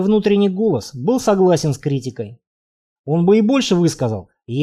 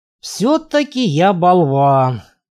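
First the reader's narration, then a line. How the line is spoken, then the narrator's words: Grumbling. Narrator (Russian): пробурчал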